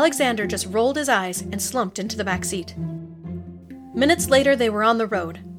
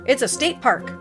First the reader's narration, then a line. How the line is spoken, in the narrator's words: Uncle Mark replied